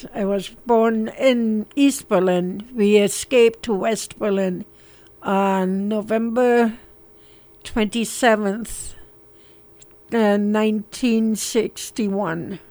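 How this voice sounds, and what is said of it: Slight German accent. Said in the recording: “You can detect a little bit of an accent in ... voice because you were born in Berlin”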